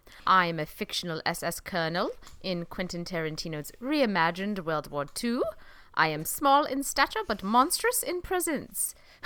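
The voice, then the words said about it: Deliberately poor put-on accent. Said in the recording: “This is a terrible accent.”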